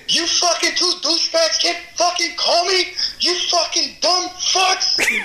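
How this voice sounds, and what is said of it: Imitated New Jersey accent, shouting. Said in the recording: “You did my New Jersey accent really well there.”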